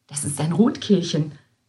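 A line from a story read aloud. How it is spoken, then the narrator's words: Whisper. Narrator (German): wisperte Schwester Basilia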